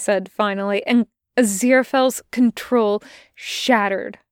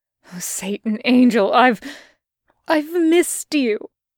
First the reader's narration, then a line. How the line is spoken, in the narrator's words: gasped Aziraphale like it was a horrid confession